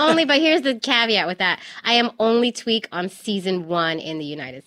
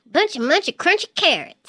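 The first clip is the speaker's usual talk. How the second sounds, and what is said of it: Cartoon bunny character voice. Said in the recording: “I'm Tweak, the little green bunny. ... Can you do a voice for us?”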